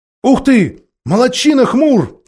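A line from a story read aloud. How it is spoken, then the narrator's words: Two voices shouting. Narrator (Russian): закричали Юстас и Джилл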